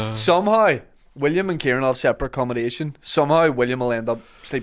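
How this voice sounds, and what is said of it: Usual voice. Nothing is said of it.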